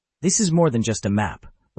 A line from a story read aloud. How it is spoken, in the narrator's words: Lysera said aloud, her voice firm